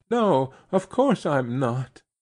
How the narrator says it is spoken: she quavered

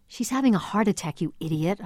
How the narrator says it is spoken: I hissed

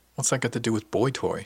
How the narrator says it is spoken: she asked

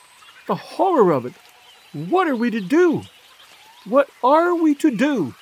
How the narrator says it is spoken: cried at last

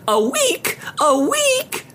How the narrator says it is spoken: she screeched like a deranged seagull

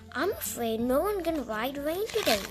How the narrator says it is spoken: said

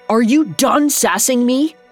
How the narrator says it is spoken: yelled

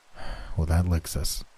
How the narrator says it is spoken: he muttered

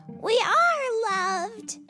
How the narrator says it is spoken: Freckles cried

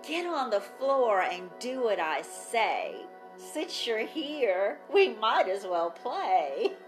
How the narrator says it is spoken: sneered

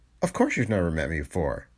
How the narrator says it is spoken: broke in with a little laugh

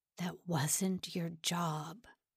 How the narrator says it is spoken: Simon muttered to the floor

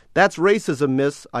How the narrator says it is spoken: yelled after her

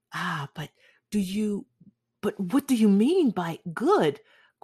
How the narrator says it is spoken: cried Basil Hallward

